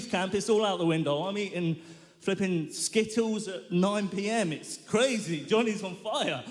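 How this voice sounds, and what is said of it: Usual voice. Nothing is said of it.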